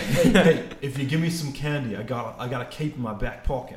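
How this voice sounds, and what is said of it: Put-on East Coast city accent. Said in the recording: “I don't know where this accent's going ... where he does like the Boston, Philadelphia, Nork ... He does the city accent. ... The East Coast accent.”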